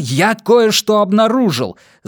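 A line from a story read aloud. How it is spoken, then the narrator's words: Shouting over noise. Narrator (Russian): заорал Эдмундс, чтобы её перекричать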